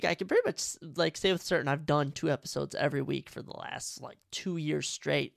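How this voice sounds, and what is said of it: Sick, congested voice. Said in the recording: “if you can't tell from my tone, I'm battling, I don't know if it's a cold, I don't know if it's a sickness of some sort ... the nose is running, we're hawking up spit”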